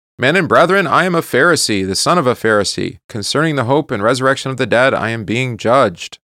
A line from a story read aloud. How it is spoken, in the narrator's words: he cried out to the council